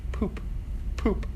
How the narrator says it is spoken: he faintly murmured

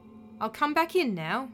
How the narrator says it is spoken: she said quietly

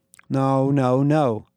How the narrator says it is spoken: stammered

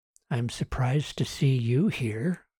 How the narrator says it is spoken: Susan whispered

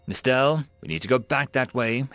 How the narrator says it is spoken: Hazar said calmly

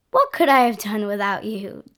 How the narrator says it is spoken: Johnny laughed

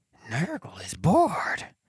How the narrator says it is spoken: the muttered undercurrent passed round

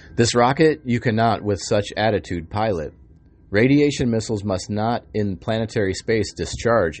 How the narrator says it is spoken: Enki said

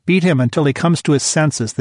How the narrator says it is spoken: the teacher said

